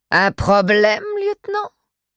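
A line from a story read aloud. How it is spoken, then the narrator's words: Strong English accent. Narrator (French): Elle avait prononcé ce dernier mot avec un accent anglais prononcé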